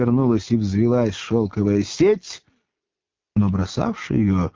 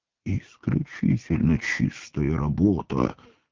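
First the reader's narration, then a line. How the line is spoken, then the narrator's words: Whisper. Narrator (Russian): шепнул один из вошедших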